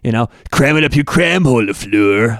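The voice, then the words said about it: Imitates another person's voice. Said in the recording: “That's actually a pretty good impression.”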